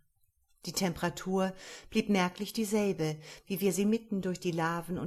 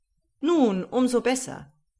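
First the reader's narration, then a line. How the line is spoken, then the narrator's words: Uncle calling out. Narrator (German): rief mein Oheim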